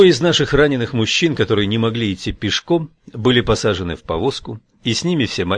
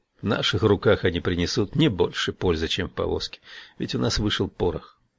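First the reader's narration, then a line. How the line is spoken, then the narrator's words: Undertone. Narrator (Russian): Лобана, сказавшего вполголоса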